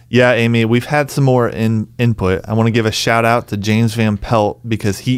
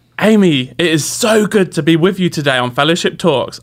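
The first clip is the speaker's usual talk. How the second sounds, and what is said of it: Put-on British accent. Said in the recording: “his challenge was for me to try to talk in a British accent during the show today.”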